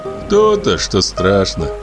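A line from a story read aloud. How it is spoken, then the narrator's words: Sad chuckle. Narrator (Russian): грустно усмехнулся Савка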